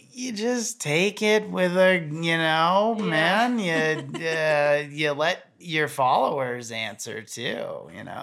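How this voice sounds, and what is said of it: Imitates another person's voice. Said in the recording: “a really good Jeremy Jones impression”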